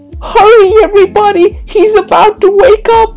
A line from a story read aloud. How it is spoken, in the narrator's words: screeched, out of breath